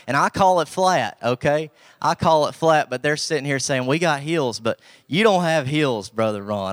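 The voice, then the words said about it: Southern hillbilly accent. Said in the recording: “we hide behind the Southern accent, but we're hillbilly ... Southern to the bone”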